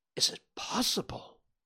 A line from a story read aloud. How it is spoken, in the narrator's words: gasped the banker